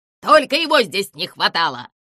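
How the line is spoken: Roar. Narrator (Russian): взревел Зыза

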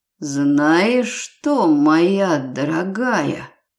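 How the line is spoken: Hissing close to ear. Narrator (Russian): прошипел мне в ухо темноволосый незнакомец

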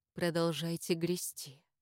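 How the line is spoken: Quiet. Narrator (Russian): сказал Даниэль тихо

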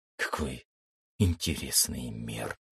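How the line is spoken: Whisper. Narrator (Russian): прошептал я

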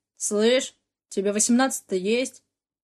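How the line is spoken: Arrogant, chilling voice. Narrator (Russian): Надменно фыркнул один из них продирающим до мурашек голосом

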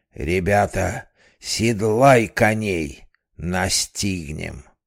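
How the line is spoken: Menacing shout. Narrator (Russian): грозно крикнул

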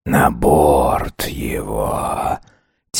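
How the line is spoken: Quiet rustling whisper. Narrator (Russian): Тихо прошелестела команда из-под балахона

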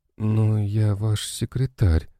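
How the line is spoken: Resigned young woman. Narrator (Russian): обреченным голосом сказала девушка

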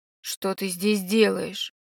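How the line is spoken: Growled. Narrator (Russian): прорычал Ирдин

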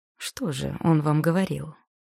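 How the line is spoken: Forced calm, nervous. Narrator (Russian): Кристин пыталась говорить спокойно, но ее волнение выдавали судорожные движения руки, мявшей складки платья

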